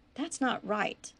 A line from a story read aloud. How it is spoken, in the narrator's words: sighed